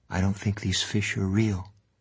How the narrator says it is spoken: Gansey said softly

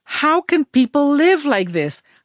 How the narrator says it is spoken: I shrieked once, desperate to run across a field

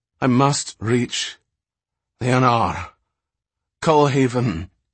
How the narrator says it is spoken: he gasped sharply

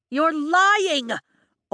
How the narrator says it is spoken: Aura Bynehaven shouts

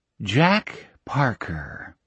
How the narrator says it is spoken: he said softly

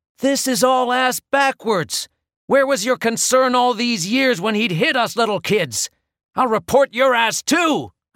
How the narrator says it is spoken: I screamed

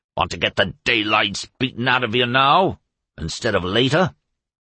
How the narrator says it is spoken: Shad growling

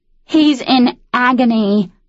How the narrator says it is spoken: Annabelle shouted at Molly

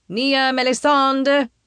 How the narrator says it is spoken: he shouts from the distance

